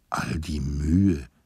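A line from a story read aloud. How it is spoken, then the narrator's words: Uncomprehending murmur. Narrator (German): murmelte ich verständnislos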